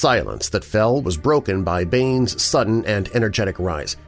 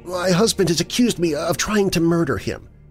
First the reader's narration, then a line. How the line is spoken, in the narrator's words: choked, then went blindly on